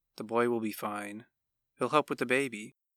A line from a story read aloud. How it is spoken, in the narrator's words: his father's sleepy voice said, softly